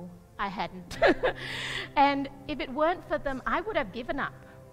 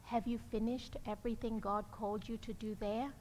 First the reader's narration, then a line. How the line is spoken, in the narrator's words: this couple just very gently asked me